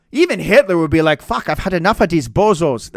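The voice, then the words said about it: Bad put-on German accent. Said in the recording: “That's a fucking terrible German accent”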